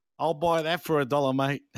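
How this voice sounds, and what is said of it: Put-on Australian accent. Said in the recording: “do you want me to do it in a full Aussie accent?”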